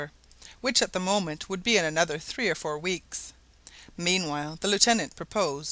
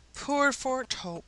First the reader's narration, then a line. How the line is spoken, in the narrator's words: exclaimed Mrs